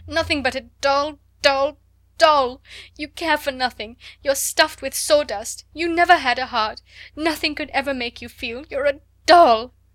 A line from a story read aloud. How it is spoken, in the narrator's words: she cried